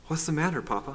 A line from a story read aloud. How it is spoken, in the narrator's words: I asked him anxiously